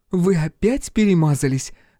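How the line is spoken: Laughing. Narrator (Russian): рассмеялась

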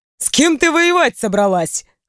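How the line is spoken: Chuckling. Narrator (Russian): хохотнул я

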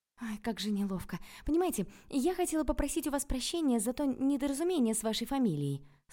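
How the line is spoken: Meek babbling. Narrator (Russian): снова залепетала я, продолжая играть роль овечки

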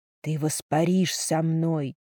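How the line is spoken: Whisper. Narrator (Russian): прошептал он

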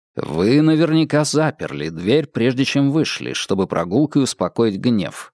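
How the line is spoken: Plain. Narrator (Russian): сказал Холмс

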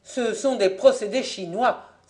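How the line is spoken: Exclaiming. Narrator (French): s'écria Fabien

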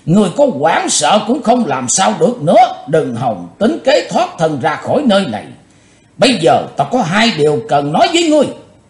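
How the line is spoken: Loud laughing speech. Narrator (Vietnamese): Quái nạp Mộc Thông miệng lớn tiếng cười nói

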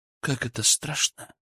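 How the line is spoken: Quiet. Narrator (Russian): произнесла она тихо

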